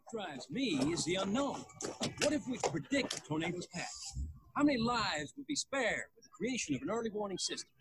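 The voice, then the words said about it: British actor's put-on Southern accent. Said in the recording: “He sounds like a British guy trying to do a Southern accent.”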